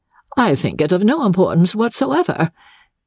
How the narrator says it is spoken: said Madame Fosco, sharply and suddenly

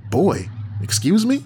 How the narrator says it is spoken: My voice went up like a Richard Pryor routine

